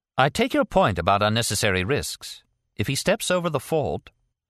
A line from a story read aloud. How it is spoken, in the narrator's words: said coldly